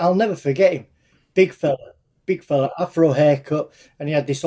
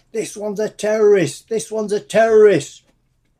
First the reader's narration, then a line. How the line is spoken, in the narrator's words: he just shouted